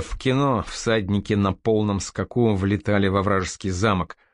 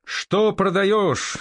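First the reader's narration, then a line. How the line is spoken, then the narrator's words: Crowd yelling almost in unison. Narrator (Russian): чуть ли не хором заорали стоящие на причале люди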